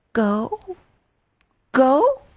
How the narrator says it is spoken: she stammered

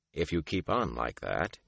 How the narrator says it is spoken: he muttered

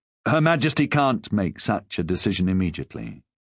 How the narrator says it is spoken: he said in the calm tones of reason

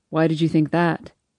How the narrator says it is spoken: he asks quietly

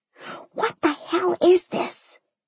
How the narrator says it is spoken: Mimi whispered, her eyes as wide as apple pies

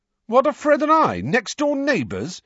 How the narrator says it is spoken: said George indignantly

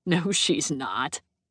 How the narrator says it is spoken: Austin snort, and then say

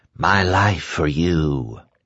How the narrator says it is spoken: Trash had whispered

